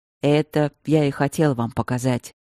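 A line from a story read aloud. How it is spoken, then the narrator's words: Heavy mutter. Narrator (Russian): тяжело буркнул Стрелковский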